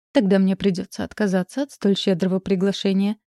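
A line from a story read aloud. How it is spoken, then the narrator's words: Chuckling. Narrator (Russian): хохотнул он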